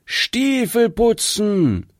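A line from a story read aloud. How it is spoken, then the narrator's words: Loud call. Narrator (German): laut rufen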